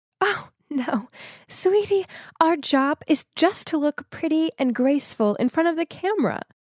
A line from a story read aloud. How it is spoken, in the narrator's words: She just laughed and said